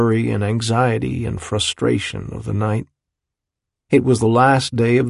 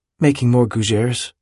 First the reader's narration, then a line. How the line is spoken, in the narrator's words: he said calmly